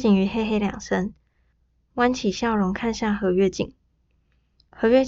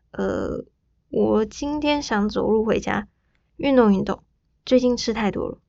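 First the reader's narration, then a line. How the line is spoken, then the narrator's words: Energetic, slightly hoarse. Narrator (Chinese): 柯景瑜立刻精神抖擞地，声音还有些哑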